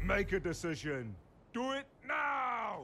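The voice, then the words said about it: Arnold Schwarzenegger impression, Austrian accent. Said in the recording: “an animatronic model of Arnold Schwarzenegger's head ... in Arnie's famous accent, he sort of says, bye-bye PPI”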